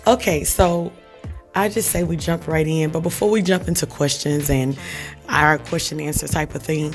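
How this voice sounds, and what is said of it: Slightly hoarse voice. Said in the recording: “I'm a little hoarse,”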